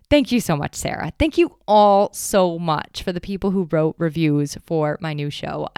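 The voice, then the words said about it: Excited, enthusiastic voice. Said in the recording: “I'm like beyond excited, as I'm sure you can hear in my voice”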